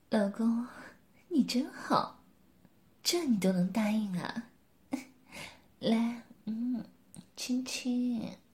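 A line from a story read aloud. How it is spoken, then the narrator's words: Soft. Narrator (Chinese): 柳丽艳轻声说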